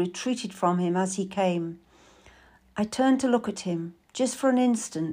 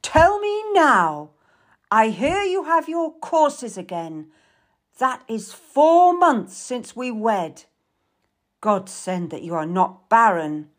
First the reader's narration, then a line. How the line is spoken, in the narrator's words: roared